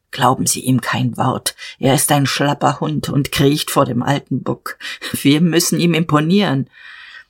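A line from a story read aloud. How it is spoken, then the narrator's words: Low murmur. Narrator (German): Jadasson raunte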